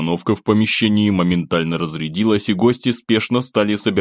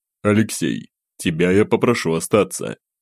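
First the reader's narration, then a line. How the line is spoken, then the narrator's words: Calm addition. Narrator (Russian): Владимир Анатольевич спокойно добавил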